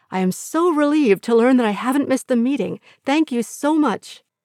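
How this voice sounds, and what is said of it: Sweet, syrupy voice. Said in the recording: “in my sweetest voice”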